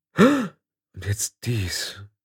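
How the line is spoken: Weak, faint. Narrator (German): sagte Tiffany schwach

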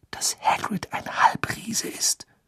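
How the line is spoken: Whisper. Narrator (German): wisperte

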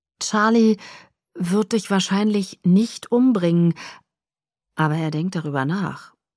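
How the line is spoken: Plain. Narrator (German): sagte Edward

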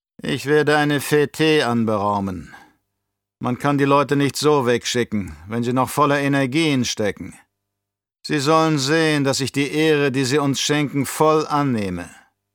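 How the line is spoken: Tired. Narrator (German): Müde sagte der Baron

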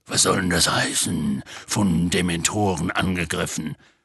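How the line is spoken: Growling. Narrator (German): knurrte Hagrid

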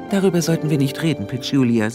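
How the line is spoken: Gentle. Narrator (German): sagte Harrietta sanft

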